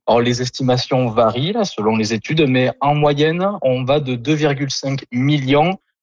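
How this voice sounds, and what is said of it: Southern French accent. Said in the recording (French): “votre accent du sud de la France”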